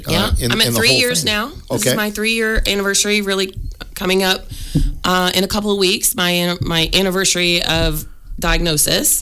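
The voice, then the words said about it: Congested voice from a cold. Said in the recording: “I have a little bit of a cold, so people probably can hear that”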